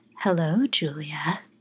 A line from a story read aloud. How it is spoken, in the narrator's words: The raspiest, playful voice seductively said